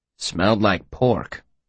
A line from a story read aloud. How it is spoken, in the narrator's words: Manette said grimly